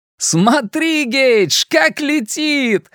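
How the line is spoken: Shouting while laughing. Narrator (Russian): закричал Луис, смеясь

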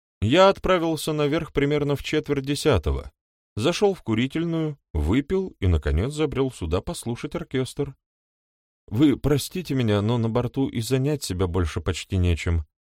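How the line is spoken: Even voice. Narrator (Russian): добавил он ровным голосом

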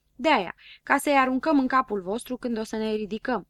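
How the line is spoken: Plain. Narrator (Romanian): răspunse Habar N-am

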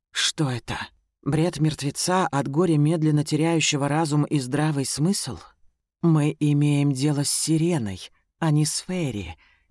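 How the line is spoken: Gentle reminder. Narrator (Russian): мягко напоминаю

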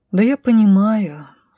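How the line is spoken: Sigh. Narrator (Russian): вздохнула

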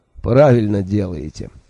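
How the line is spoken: Laughing. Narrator (Russian): рассмеялся Джуфин

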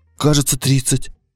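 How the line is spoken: Timid. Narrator (Russian): робко сказал Боря

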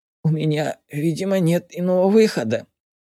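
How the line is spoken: Wheezy rasp. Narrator (Russian): просипел он

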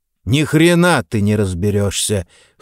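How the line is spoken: Cold declaration. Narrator (Russian): холодно заявил Леонид

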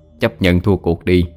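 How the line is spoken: Laughing, then soft. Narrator (Vietnamese): Api cười lớn, khẽ nói

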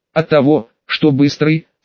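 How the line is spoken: Calm reply. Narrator (Russian): спокойно ответил бывший атаман

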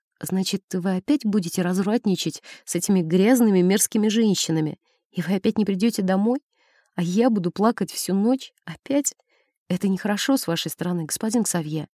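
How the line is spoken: Whisper. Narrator (Russian): я прошептала

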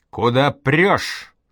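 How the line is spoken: Yelled. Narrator (Russian): заорал Колька

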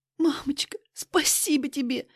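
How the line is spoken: Tearful daughter. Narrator (Russian): сквозь слезы произносит дочь

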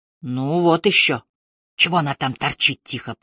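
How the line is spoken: Hissed. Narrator (Russian): прошипел Кассис

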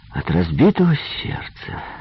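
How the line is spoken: Sympathetic tone. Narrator (Russian): участливым тоном сказал Джимми

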